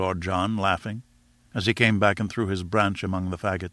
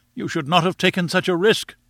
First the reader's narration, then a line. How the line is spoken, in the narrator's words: we all cried